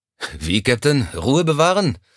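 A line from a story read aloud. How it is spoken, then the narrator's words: Sighed. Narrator (German): Er seufzte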